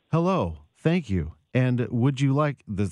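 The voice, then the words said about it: Robotic AI robocall voice. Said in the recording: “my imitation of an AI-generated voice robocall ... I thought you were actually playing a robot, so I thought that was really good”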